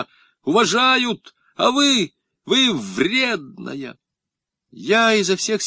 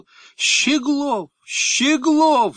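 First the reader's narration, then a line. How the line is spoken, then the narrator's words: Goddess shouting. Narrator (Russian): закричала богиня Саваофа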